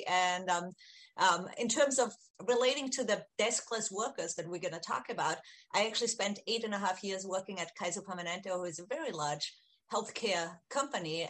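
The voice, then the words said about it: Austrian accent. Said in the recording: “just a couple of points to explain my accent in case you're wondering. I'm from Austria originally.”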